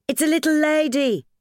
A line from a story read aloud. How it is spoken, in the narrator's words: Ethel cried